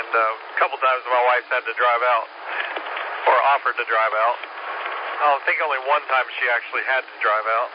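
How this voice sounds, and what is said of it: Hoarse, froggy throat. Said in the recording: “I've got allergies going on, and I've got a frog in my throat or something, and every time I unkey, I've got to cough a little bit”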